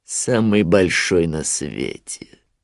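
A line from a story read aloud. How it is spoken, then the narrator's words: Grim smirking. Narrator (Russian): мрачно ухмыльнулся Шрам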